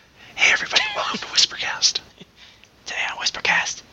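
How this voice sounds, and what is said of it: Whispering. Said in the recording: “Whispering. ... I'm whispering. ... Whispering.”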